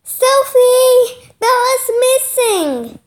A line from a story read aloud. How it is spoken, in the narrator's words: Mia cried